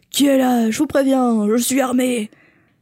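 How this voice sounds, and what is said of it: Imitates a character's voice. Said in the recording (French): “imitation de Vernon”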